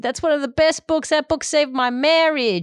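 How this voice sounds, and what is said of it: Bad put-on American accent. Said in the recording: “Sorry for the bad American accent”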